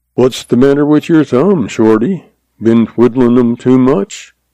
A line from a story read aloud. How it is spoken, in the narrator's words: he asked dryly